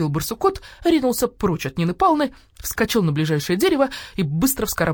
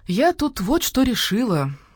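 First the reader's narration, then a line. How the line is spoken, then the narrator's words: Sugary voice. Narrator (Russian): сладким голосом произнесла Нина Павловна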